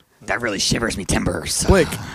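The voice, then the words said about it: Pirate voice. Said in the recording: “Talk in a pirate voice for the next three turns. ... being a pirate”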